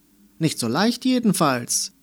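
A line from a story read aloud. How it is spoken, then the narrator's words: Calling out from afar. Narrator (German): rief der Regenbogenstift aus dem Mäppchen zu ihr herüber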